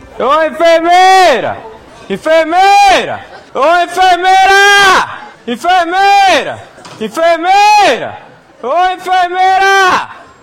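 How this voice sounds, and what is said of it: Shouting loudly. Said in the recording (Portuguese): “por que tá gritando desse jeito ... Mas não fica gritando, não ... Não grita, não.”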